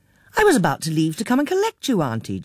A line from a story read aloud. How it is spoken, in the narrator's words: Jean exclaimed